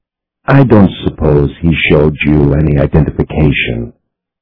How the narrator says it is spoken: Levon wondered in the meekest tone he could manage

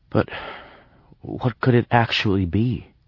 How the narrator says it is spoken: I asked hesitantly

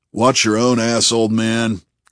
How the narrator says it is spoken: grumbled Bunny

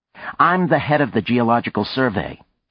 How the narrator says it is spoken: said sharply

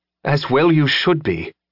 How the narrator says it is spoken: Elizabeth said, more harshly than she'd intended

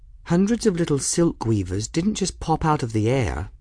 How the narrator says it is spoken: Bridget said back firmly

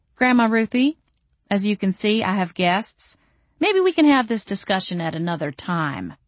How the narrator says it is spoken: I tried to keep my voice calm as I said

